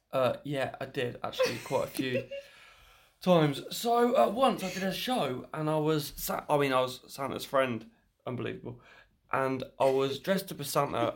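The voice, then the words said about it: Husky, hoarse voice. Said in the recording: “I might have a bit of a husky voice ... doing a Santa impression”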